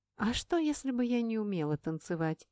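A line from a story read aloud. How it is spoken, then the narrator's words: Plain question. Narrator (Russian): спросила у него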